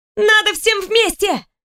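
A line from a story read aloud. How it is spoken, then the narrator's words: Small girl shouting. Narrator (Russian): закричала невысокая девчушка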